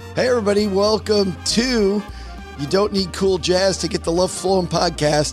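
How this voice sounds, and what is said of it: Sick, strained hoarse voice. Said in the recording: “You can hear from my voice that I'm feeling 1,000,000% today. Just incredible how this thing attacks the vocal cords. ... I probably feel better than I sound.”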